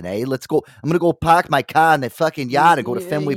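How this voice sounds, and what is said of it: Put-on Boston accent. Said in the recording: “if you're over on the eastern side, you know, I hear a lot of like the Boston”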